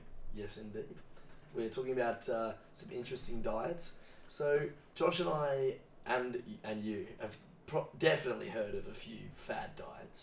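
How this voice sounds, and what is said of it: Slightly hoarse voice. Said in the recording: “His voice is a little bit on the hoarse side”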